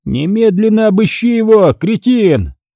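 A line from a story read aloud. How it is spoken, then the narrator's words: Furious yell. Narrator (Russian): наливаясь злостью, заорал Стригун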